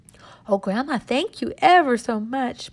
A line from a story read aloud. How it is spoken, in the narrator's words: Marcella cried